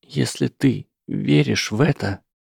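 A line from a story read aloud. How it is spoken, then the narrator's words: Unsteady voice. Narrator (Russian): сказала она нетвердым голосом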